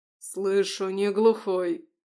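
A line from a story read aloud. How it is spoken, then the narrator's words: Growled. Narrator (Russian): рычал Михаил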